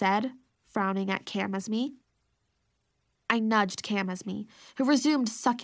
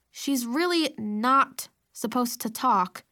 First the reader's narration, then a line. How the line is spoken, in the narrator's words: I said through gritted teeth